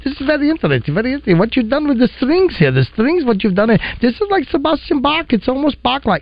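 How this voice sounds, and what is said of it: Exaggerated German accent. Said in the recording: “he's got a German accent, so I think maybe exaggerating”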